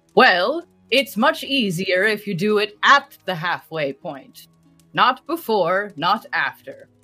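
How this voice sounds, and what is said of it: Put-on fantasy accent. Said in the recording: “do my best in Manavanyar accent”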